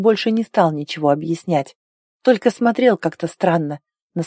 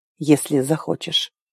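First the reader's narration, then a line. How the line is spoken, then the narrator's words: Quiet, after a pause. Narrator (Russian): Арн помолчал секунду и тихо добавил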